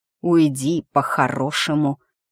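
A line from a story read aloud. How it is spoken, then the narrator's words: Angry witch hissing. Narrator (Russian): зло зашипела эта ведьма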